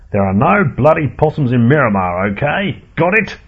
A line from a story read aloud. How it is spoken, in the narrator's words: shouted Henry Mansfield, the head of pest control